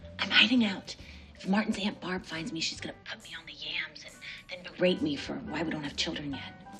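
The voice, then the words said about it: Whispering. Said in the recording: “Why are we whispering? ... why am I whispering? ... You just started whispering.”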